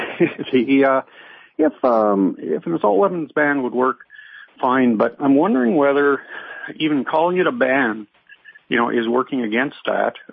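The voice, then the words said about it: Canadian accent. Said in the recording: “you sound Canadian.”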